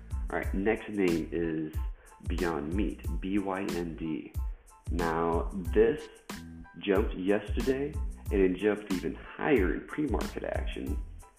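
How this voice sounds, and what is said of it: Slightly weird-sounding voice. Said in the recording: “my voice is sounding a little weird. I just got over the flu. I had a fever. I was coughing for at least a week, so that may be coming through.”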